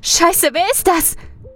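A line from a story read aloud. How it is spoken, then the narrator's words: Frightened shriek. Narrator (German): kreischt Sally ängstlich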